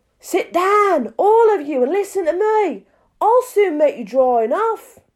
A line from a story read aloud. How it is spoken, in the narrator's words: the mouse, who seemed to be a person of some authority among them, called out